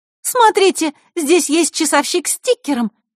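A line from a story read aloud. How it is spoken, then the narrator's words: Exclaiming. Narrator (Russian): воскликнула Захарра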